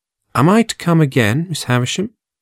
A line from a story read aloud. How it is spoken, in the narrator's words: asked